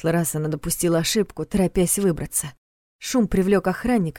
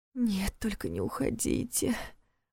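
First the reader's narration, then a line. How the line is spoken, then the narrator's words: Muttered. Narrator (Russian): пробормотала она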